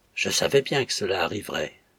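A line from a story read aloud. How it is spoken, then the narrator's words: Low voice. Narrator (French): dit-elle à voix basse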